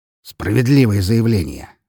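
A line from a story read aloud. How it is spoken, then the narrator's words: Snorting. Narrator (Russian): хмыкнул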